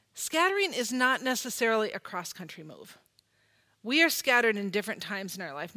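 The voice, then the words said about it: Minnesota accent. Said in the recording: “you can hear I am not a native Texan ... I grew up in Minnesota ... I still have Minnesota in my accent”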